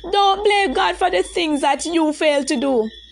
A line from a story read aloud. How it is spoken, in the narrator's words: Adriana shouted, trying to convince herself at the same time